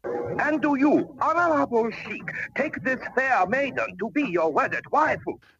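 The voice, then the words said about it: Exaggerated Japanese accent. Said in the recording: “Is this supposed to be some weird accent? ... it sounds like a racist accent. ... He had an actual Japanese accent and he played it up”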